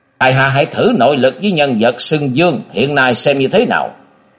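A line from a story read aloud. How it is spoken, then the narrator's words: Loud roar. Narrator (Vietnamese): Thạch Mộng gầm to lên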